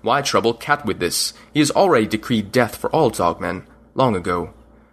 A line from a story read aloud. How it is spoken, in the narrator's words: Lion growled